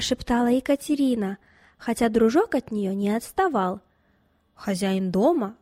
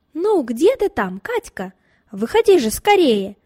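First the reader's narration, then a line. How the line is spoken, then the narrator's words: Impatient shouting. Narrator (Russian): кричал от нетерпения Николай Васильевич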